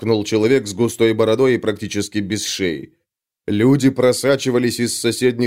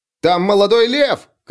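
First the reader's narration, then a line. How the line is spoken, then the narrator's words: Shout. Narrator (Russian): крикнул кто-то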